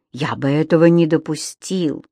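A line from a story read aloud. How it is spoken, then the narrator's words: Unexpectedly soft. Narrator (Russian): неожиданно мягко сказал Камерон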